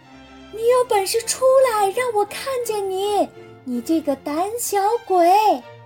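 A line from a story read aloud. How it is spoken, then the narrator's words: Shouting at full voice. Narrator (Chinese): 他用最大的嗓门大叫道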